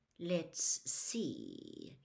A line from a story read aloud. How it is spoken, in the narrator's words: he said in his silkiest voice